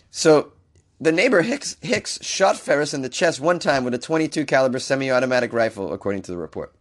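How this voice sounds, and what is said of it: Rough, sick-sounding voice. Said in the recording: “my voice is screwed because I'm sick”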